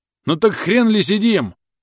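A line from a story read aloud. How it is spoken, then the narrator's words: Furious yelling. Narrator (Russian): заорал на нас Грэм, бешено выпучив глаза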